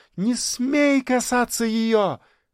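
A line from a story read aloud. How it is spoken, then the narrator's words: Shrieking. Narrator (Russian): завопила Женечка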